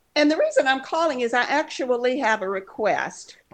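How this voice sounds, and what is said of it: Southern US accent. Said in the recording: “You're from the South. Texas. ... Virginia ... this is not really completely a Virginia accent. I lived in South Carolina when I was learning to talk”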